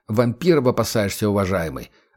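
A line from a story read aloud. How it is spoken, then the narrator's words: Indistinct grumbling. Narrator (Russian): отвечал невнятным бурчанием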